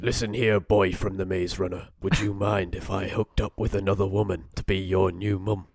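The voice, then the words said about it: Put-on accent, wrong for character. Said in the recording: “That is a Hot Love Actually reference. Using the wrong accent.”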